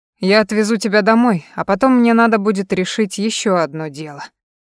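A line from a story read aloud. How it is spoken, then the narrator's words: Sighed. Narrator (Russian): вздохнул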